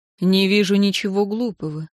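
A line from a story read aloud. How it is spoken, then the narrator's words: Calm, deeply sympathetic. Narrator (Russian): ответил Арен спокойно, но в голосе его слышалось столько сочувствия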